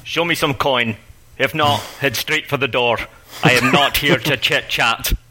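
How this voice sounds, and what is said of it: Very poor put-on Scottish accent. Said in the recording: “attempting a very poor Scottish accent”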